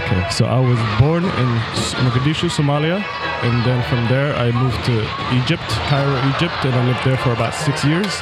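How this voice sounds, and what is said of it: Non-local foreign accent. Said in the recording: “based on your accent, I'm going to assume you weren't originally from Omaha.”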